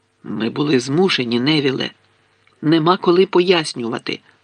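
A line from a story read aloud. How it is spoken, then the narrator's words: Plain. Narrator (Ukrainian): сказав Гаррі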